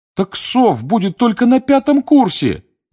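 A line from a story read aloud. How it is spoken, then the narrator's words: Pleading. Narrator (Russian): взмолился Дин Томас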